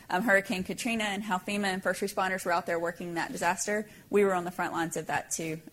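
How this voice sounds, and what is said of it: Regional accent. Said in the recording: “You probably hear my accent.”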